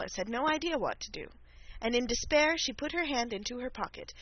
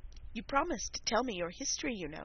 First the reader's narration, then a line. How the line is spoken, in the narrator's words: said Alice